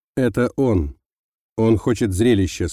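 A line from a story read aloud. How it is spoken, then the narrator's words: Calm reply. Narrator (Russian): спокойно ответил Юмин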